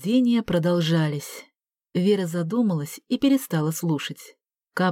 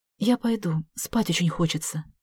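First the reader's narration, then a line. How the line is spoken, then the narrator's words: Whisper in ear. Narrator (Russian): шепнула Вера на ухо Саше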